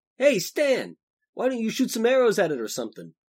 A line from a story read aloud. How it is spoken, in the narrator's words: Frosch called out to the elf